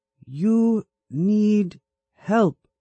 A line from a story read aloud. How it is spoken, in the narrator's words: she said slowly